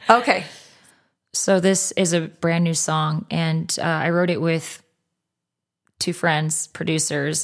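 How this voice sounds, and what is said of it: Raspy voice. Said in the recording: “my voice has been on definitely the raspier side ... the Arizona air”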